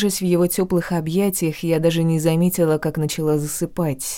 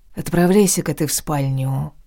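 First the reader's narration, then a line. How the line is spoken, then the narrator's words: Soft, quiet. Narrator (Russian): тихонько проговорил Грех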